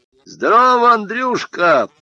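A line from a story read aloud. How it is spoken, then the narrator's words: Shouted greeting. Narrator (Russian): закричал он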